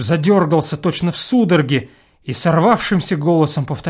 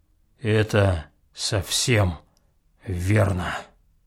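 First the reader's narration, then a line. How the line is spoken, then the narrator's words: Calm and clear. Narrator (Russian): спокойно и внятно сказал Будырин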